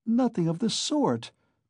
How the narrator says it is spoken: cried Dounia in vexation

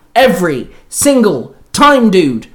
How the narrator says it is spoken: the Green Ranger barked

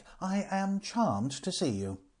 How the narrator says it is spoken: cried Frank

